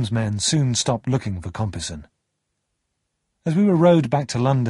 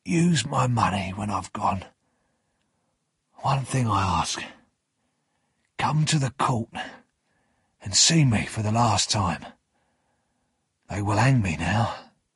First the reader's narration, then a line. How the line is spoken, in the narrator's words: Magwitch whispered